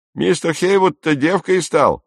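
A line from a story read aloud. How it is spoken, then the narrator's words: Someone shouting. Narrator (Russian): закричал кто-то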